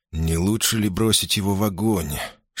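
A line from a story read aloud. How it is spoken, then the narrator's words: Whisper. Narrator (Russian): шепнул ей Сожирук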